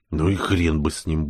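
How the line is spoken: Grumbling mutter. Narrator (Russian): буркнул

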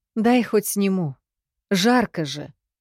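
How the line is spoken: Sigh. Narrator (Russian): Вздохнула

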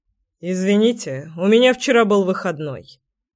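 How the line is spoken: Calm deep voice. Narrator (Russian): спокойно пробасил Кир

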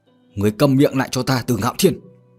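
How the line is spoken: Angry shout. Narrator (Vietnamese): Trưởng môn một lần nữa tức giận mà quát

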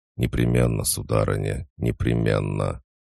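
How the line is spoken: Muttered. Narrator (Russian): Он пробормотал

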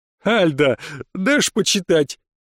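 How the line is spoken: Forced out through laughter. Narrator (Russian): выдавил сквозь смех Ариант

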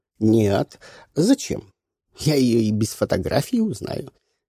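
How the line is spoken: Giggling. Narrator (Russian): хихикнула мадам Майон

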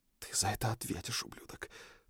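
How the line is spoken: Whispered. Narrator (Russian): прошептала Фроя

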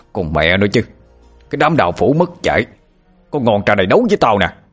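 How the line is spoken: Angry shout. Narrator (Vietnamese): Bãi Sâm quát lên

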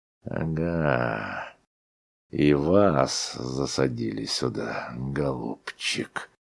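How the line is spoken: Hoarse, sleepy. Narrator (Russian): проговорил он сиплым с просонок голосом

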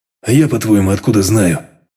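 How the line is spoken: Gloomy grumble. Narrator (Russian): Мрачно пробурчал батя

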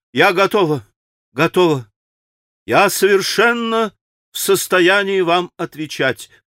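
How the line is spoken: Quick exclamation. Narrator (Russian): Катерина Ивановна стремительно воскликнула

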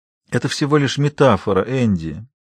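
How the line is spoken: Quiet and tender. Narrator (Russian): говорил он тихо и ласково

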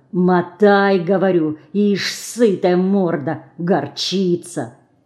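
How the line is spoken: Angry hissing whisper. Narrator (Russian): прошипел, злым шепотом добавил

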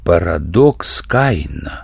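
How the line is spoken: Surprised mutter. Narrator (Russian): удивленно пробормотал Семенов

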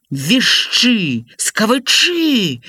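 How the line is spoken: Angry hiss. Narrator (Belarusian): зашыпеў Лявон Іванавіч на Жору

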